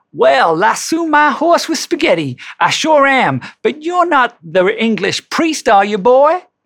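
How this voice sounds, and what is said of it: Put-on American cowboy accent. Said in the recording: “I do apologize to my American friends for the accent.”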